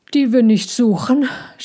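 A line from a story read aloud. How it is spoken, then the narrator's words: Panting, calming sigh. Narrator (German): schnaufte Ludwig und seufzte, um sich zu beruhigen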